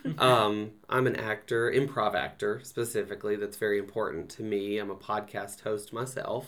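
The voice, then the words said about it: Southern American accent. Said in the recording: “as you can hear by my voice, I'm a Southern guy.”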